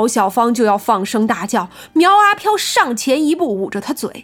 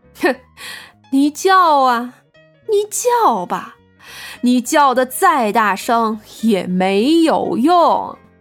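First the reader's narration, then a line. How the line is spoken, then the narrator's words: Wicked, mocking laugh. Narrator (Chinese): 苗阿飘一脸坏坏的笑道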